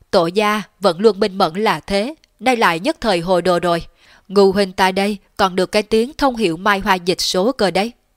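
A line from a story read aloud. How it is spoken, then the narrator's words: Laughing loudly. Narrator (Vietnamese): Trương Kế Nghiêu cười lớn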